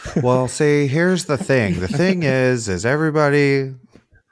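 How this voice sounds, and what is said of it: Imitates another person's voice. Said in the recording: “my Blake impression. ... if I close my eyes, I would thought I was here.”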